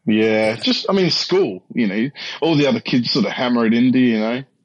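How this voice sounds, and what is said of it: Australian accent. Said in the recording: “your accent, but it sounds Australian to me”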